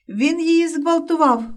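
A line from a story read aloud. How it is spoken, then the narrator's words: Shrill exclamation. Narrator (Ukrainian): верескливо вигукнув Вася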